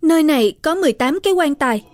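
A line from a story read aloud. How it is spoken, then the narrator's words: Surprised cry. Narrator (Vietnamese): kinh ngạc kêu lên một tiếng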